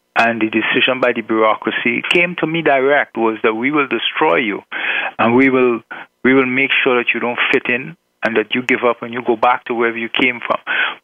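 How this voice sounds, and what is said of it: Island accent. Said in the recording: “I was from the islands ... my accent”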